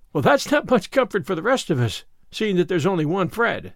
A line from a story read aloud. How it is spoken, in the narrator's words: laughed Anne